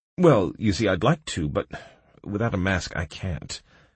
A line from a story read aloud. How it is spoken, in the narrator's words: I confessed, looking nervously around